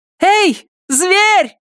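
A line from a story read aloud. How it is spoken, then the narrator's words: Yelling. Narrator (Russian): заорала она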